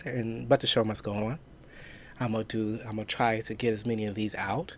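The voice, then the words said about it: Sick, weird-sounding voice. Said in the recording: “apologize for my voice. My voice is a little weird right now because I am currently have a cold”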